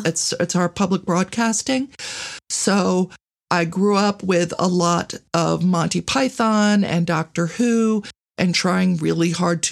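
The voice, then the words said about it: Philadelphia accent. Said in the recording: “are you proper Philadelphia? Is this this accent? ... I am.”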